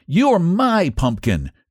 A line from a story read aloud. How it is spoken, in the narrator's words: cried Antone